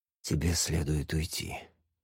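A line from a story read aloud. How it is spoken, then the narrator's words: Soft but strained, rough. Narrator (Russian): мягко сказал, но слова прозвучали грубо от напряжения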